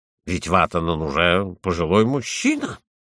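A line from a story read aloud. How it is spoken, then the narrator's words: Grumbling. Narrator (Russian): Куконен пробурчал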